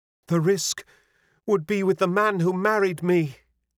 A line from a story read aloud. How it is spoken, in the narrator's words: cried